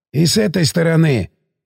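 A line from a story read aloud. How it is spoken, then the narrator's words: Hoarse voice. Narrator (Russian): указал сиплый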